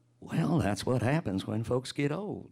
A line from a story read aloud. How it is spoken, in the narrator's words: he whispered back to the boy